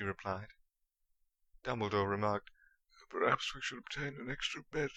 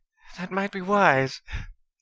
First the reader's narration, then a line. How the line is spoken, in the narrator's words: chuckled Mrs